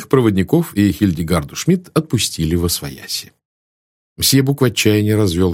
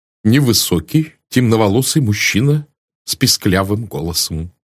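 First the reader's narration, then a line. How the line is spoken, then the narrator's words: Plain. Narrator (Russian): сказал мсье Бок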